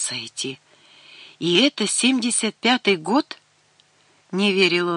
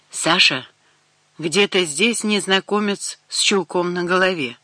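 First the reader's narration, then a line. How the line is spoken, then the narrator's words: Flat wooden voice. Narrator (Russian): деревянным голосом произнесла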